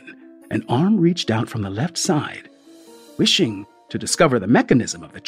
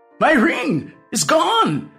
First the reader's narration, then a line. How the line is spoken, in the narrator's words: I exclaimed